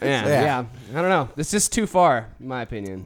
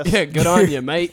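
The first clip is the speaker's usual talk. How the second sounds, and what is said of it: Put-on Australian accent. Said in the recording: “Why is it an Australian accent?”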